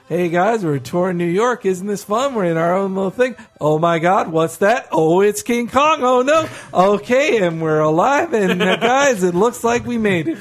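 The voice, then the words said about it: Bored, going-through-the-motions tour host voice. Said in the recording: “she was also just going through the motions ... that is a great impression”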